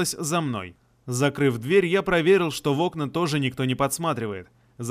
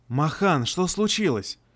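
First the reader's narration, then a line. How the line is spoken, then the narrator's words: Whisper. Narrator (Russian): шепотом произнесла она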